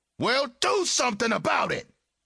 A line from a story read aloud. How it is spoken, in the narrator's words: Jarrell shouted